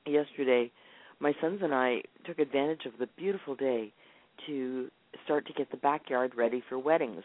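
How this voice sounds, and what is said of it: Unwell, affected-sounding voice. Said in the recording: “As you can tell by my voice, I'm having an allergy issue today.”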